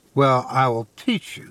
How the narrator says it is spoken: he said

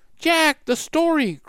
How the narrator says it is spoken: cried Annie

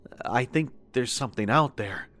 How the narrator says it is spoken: whispered

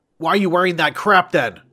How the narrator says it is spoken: he shouted down

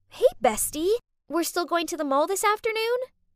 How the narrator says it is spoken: Chloe excitedly said

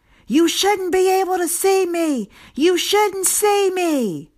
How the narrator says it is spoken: Repeatedly screamed

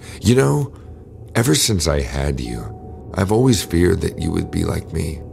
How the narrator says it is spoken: she murmured

